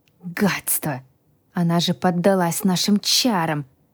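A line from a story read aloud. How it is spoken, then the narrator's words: Groaning. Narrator (Russian): Простонал первый потерпевший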